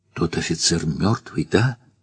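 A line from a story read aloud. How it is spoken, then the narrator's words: Whispered question. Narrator (Russian): шепотом спросила Варя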